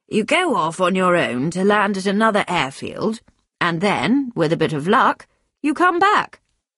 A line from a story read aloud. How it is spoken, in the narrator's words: George replied cheerfully